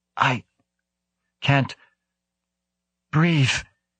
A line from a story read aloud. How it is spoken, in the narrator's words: gasped